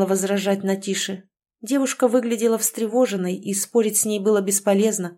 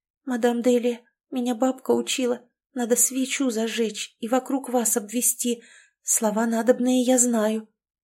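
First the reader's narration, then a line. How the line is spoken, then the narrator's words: Barely audible girl. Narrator (Russian): девушка едва слышно произнесла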